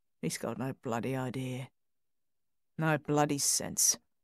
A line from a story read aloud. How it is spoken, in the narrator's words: Under his breath, muttered